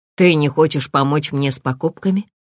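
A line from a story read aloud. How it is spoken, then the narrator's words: Plain. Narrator (Russian): спросил он сына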